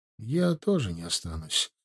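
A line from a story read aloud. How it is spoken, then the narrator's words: Quiet speech. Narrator (Russian): тихо сказал Ленцу подошедший Ардашев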